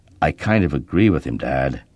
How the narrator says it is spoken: feeling a surge of nobility, I lowered my voice and quietly said

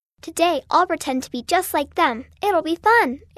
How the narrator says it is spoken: Amy said happily

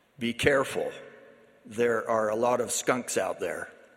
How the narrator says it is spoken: He said to them in his gravelly voice

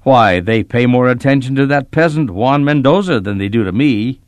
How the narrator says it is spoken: he grumbled

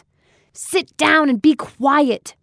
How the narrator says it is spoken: Marcia barked over her loudspeaker

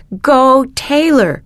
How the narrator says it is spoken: shouted Angelica

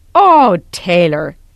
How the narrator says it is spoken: Elder Junker exclaimed

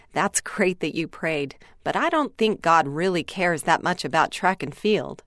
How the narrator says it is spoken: Joe chuckled and replied

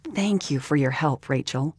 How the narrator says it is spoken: Mama said

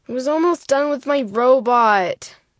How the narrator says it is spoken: Joseph whined

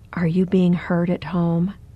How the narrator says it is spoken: In a voice barely above a whisper, asked

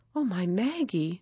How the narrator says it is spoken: whispered

